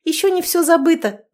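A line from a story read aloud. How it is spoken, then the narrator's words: Joyless laugh, then sigh. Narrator (Russian): засмеялась как-то невесело, а потом вздохнула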